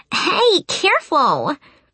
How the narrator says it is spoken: She squealed, all excited and flushed at having been caught

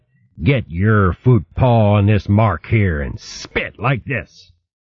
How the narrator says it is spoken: he snarled

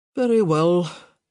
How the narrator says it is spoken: he sighed

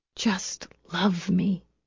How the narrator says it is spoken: she whispered

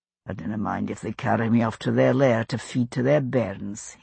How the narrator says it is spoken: he murmured

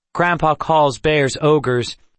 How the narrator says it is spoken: Kendra explained loudly

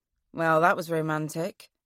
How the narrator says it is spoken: I say dryly

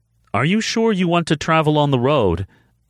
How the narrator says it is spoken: Amanda called out behind him

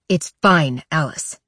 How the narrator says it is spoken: Wade snaps

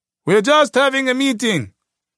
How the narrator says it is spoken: a commander kept yelling through the mayhem

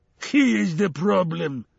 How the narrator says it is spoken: shouted Chernobog

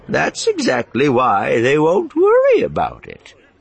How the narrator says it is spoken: Miranda said cheerfully

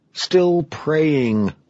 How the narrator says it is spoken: Clark groaned

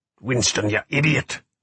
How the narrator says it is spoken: Cuthbert hissed

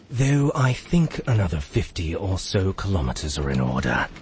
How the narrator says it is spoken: he said sternly

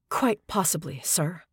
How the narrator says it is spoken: she said quietly

